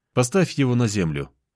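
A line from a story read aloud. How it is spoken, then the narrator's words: Calm command. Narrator (Russian): спокойно скомандовал я Ивану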